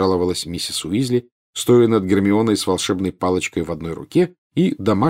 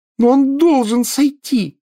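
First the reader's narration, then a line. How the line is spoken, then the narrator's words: Yelled. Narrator (Russian): завопила Гермиона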